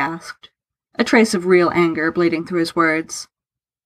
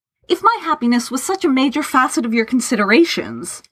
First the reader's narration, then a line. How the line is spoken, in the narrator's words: Lawrence said hotly